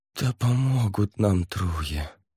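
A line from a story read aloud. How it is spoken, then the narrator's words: Silent inner groan. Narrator (Russian): мысленно простонал Савьер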